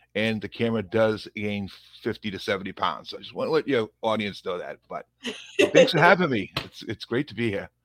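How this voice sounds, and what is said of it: Thick Boston accent. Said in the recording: “I do have a thick Boston accent”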